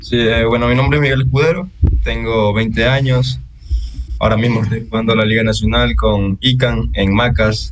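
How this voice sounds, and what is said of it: Coastal Spanish accent. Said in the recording (Spanish): “Tiene acento costeño.”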